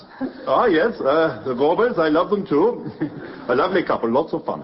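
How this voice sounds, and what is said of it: Glaswegian Scottish accent. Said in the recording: “I detect from your accent, sir, that you are not from round here. ... from Glasgow.”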